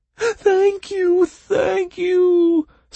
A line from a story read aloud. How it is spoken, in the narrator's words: squealed the bog creature, jumping for joy